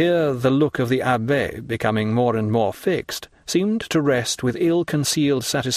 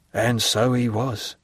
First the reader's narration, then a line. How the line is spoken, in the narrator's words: murmured Caderousse